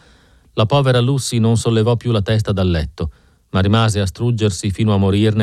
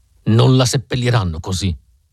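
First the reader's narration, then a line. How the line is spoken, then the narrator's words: Shouted with a growl. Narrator (Italian): gridò con un ringhio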